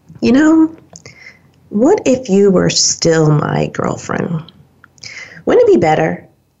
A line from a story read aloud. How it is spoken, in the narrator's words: very gently just said